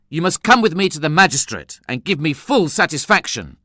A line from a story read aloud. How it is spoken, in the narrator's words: I exclaimed angrily